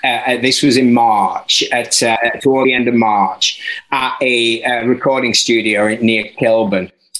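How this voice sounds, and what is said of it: Mostly Yorkshire accent with London touches. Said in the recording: “my slightly top end, mostly Yorkshire, a little bit London accent”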